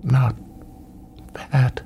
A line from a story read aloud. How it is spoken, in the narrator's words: Her voice caught as she whispered